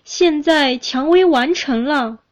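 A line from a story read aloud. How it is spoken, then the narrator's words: Crying out. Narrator (Chinese): 树叫起来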